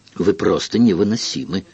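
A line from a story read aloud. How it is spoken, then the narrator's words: Irritated. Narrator (Russian): раздраженно отвечал король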